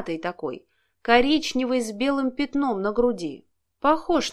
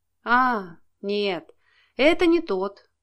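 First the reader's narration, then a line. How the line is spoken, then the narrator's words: Sighed. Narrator (Russian): вздохнул участковый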